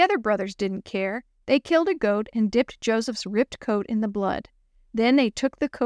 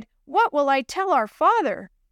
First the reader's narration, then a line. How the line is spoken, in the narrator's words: When Reuben found out what they had done, he cried